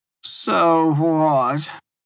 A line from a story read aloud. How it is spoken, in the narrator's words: Tressa asked, her voice groggy, her words slurred